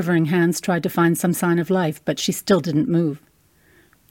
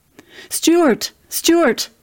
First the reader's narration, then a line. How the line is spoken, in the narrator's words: I cried out for my husband